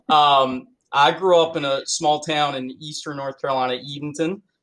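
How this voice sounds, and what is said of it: Southern US North Carolina accent. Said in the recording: “I'm coming to you from North Carolina. So if you hear the better accent, that would be me.”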